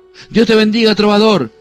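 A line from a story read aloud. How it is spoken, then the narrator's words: Joyful exclamation. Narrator (Spanish): exclamó alegremente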